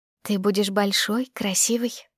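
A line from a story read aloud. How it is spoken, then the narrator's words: Whispered. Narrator (Russian): шепнула я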